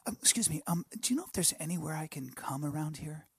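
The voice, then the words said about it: Overly polite character voice. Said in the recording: “my polite, my polite pervert... my impression of the polite pervert... This is the really polite pervert.”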